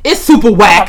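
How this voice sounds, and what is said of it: Imitates another person's voice. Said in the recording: “in my Selena voice. That's super whack in my Selena Johnston voice.”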